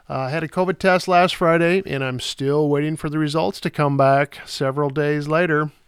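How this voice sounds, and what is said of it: Sick, under-the-weather voice. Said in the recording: “I'm a little under the weather this week ... my voice isn't what it should be”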